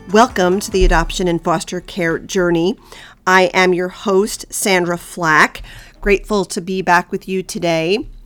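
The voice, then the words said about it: Congested, sinusy nasal voice. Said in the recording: “You can probably still tell from my voice that I'm not 100% recovered from this little bout with COVID ... I still have this sort of, sinusy, nasally sounding voice”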